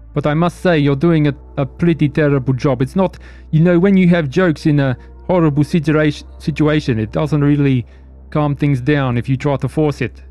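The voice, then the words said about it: Noticeable unusual accent. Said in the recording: “I've got a funny accent, I've been told”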